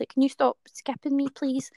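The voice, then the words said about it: Small squeaky voice. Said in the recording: “probably my wee squeaky voice”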